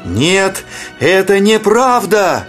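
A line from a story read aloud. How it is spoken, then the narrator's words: Shouting while running. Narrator (Russian): закричал, выбегая из леса, Зигфрид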